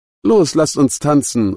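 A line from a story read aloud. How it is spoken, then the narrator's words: Exuberant call. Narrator (German): rief Beata, die offenbar in Hochform war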